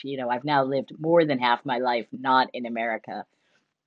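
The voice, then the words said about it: Mostly American-sounding accent. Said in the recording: “you hear my accent, you think I'm American, and I'm like, well, ish”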